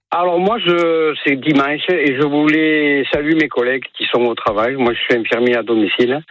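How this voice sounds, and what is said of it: Southern French accent. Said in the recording (French): “c'est un accent du sud que vous avez”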